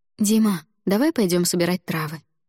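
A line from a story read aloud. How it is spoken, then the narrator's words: Forced cheerful suggestion. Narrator (Russian): выдавив из себя улыбку, предложила я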